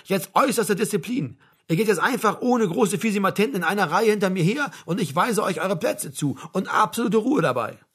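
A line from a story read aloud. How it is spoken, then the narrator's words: Shouted. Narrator (German): rief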